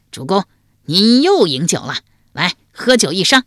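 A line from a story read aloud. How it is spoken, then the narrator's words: Loud laughing call. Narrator (Chinese): 一笑，高声叫道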